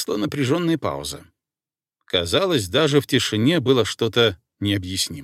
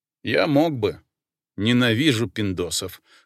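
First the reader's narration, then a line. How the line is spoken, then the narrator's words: Scoffing grunt. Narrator (Russian): хмыкнул Шут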